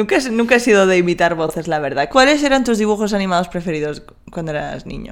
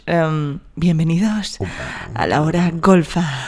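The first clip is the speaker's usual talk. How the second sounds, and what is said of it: Radio announcer voice. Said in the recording (Spanish): “tengo la voz de locutora de Hora Golfa”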